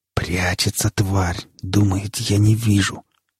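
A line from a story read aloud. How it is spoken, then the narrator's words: Predatory whisper. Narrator (Russian): хищным шепотом произнес сталкер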